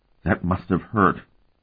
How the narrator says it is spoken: the soldier said in a shaking voice

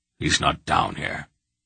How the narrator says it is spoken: Belgareth muttered

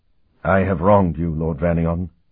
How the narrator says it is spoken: said in a thick voice

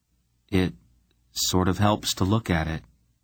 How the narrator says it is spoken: Garion replied quite calmly

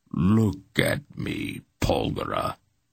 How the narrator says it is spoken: he commanded, his voice now almost purring

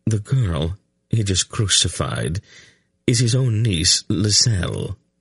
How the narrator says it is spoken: Silk replied quite calmly

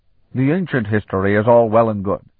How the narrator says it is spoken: Jukta growled

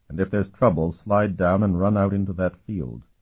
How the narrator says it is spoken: Sparhawk murmured to her

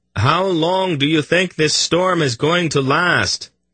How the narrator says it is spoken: Garion shouted to Durnick

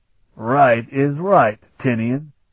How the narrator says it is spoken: Ulath replied in a faintly injured tone

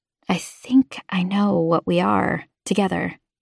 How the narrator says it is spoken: I whispered

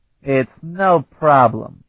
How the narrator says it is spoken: he said in his slurred voice

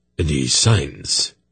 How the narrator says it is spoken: he demanded curtly

